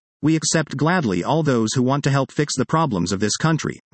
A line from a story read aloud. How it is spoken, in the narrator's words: Milei said